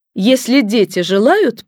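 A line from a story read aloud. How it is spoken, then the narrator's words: Iron-toned, upset. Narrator (Russian): повторила мама железным тоном, она почему-то сильно расстроилась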